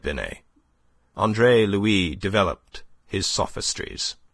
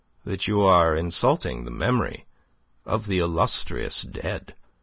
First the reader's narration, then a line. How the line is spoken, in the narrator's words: said very quietly